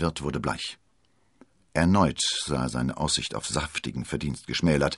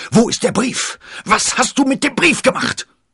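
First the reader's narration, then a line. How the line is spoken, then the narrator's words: Furious roaring. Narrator (German): Er brüllte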